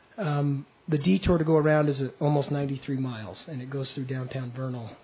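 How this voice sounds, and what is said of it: Hoarse, failing voice. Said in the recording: “my voice is leaving me faster than I thought”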